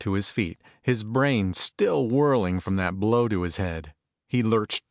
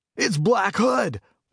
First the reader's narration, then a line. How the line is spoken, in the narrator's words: one of the coppers shouted triumphantly